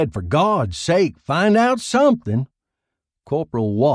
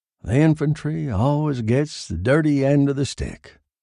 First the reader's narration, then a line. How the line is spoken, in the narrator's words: he said gloomily